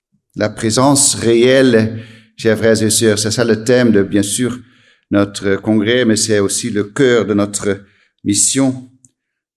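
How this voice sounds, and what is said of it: Slight Dutch accent in French. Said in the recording (French): “si vous entendez un petit accent, ... c'est parce que je suis hollandais.”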